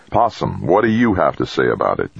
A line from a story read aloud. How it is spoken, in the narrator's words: Jamie asked again